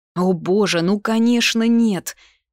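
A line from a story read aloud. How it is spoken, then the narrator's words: Exclamation. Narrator (Russian): воскликнула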